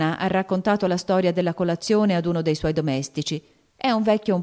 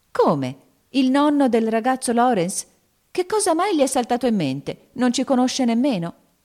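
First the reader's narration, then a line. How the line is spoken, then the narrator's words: Exclaimed. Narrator (Italian): esclamò Meg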